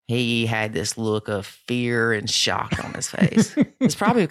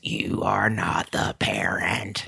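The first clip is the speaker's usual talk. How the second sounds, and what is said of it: Demonic, menacing voice. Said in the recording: “In your demonic voice? ... My demonic voice, that's it. My definitely demonic voice.”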